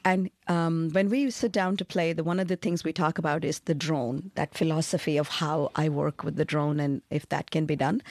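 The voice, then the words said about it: Mixed non-native English accent. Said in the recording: “Forgive my accent. I've lived too many places in the world to have anything proper, I mix and match.”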